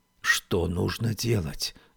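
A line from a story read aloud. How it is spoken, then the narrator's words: Whispered question. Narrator (Russian): спросила Феба шепотом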